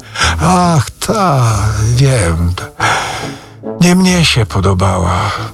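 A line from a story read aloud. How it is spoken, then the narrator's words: Sighing. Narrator (Polish): westchnął Rzecki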